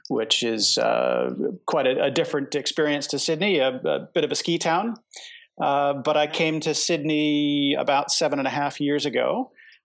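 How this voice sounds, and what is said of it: American accent. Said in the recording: “I have a bit of a funny accent, although I live in Sydney. I hail originally from the US and in particular a place called Jackson Hole, Wyoming”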